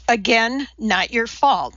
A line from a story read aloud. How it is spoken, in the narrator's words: Frasque reassured the child